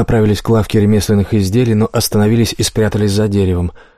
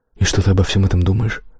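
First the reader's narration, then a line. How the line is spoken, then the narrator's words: Whisper in the ear. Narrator (Russian): прошептала Кейт ей на ухо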